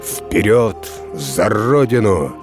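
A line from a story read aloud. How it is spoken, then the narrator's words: Menacing shout. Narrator (Russian): Полководец грозно крикнул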